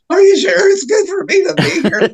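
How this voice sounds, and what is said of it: Nerdy put-on voice. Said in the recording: “in my nerdiest voice.”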